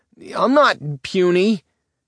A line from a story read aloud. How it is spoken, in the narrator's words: Nick shouted after her